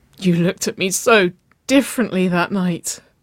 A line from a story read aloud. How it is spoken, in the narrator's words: Waverley whimpered